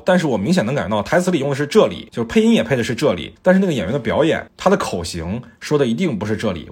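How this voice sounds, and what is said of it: Slight Taiwanese-flavored Mandarin accent. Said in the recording (Chinese): “我自己都会切换成这种比较台的口音，好奇怪啊”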